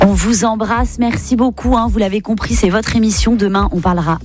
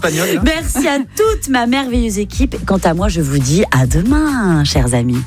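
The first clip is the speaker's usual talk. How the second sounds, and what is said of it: Put-on Spanish accent. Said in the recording (French): “J'avais envie de faire un petit accent espagnol pour conclure cette émission.”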